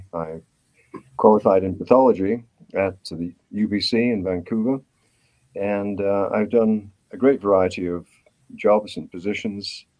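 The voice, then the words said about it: British accent. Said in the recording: “my accent gives me away. ... I'm a graduate of medicine from Cambridge University in Britain. I came to Canada in 1970.”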